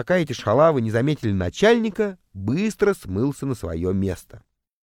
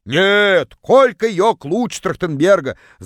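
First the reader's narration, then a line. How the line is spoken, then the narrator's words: Distant yell. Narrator (Russian): Заорала одна из них из самого дальнего угла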